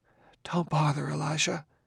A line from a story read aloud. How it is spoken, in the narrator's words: whispered